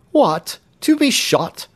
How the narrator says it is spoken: cried the young man, shuddering involuntarily

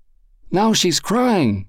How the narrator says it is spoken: exclaimed Lázaro

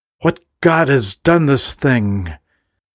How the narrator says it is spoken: her father, the king, stormed into the room, he cried out

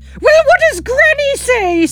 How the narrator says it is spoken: Sandra shouts

